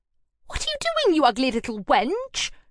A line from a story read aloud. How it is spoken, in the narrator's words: snapped